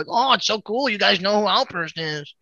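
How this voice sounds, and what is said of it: Imitates another person's voice. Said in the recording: “great jeffers impression”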